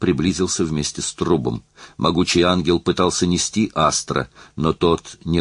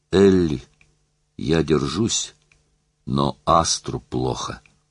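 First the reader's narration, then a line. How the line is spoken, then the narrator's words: Hoarse breathless whisper. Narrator (Russian): хрипло дышала, она прошептала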